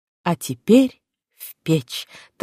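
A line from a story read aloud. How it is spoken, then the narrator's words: Solemn. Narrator (Russian): торжественно произнесла Саша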